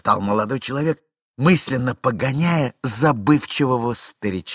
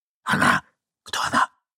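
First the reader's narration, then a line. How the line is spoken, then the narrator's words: Young man whispering. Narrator (Russian): прошептал молодой человек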